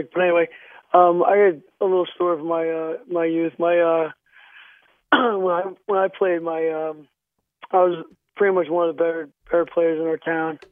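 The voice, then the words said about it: Sick, hoarse-sounding voice. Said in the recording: “my voice is a little sick.”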